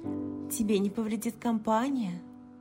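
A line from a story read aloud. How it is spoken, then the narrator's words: Sighing. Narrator (Russian): Инг вздохнул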